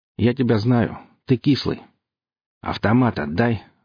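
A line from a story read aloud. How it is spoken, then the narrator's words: Calm. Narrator (Russian): спокойно сказал кислый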